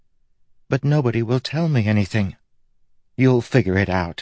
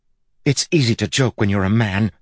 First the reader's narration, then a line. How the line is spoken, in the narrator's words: she snapped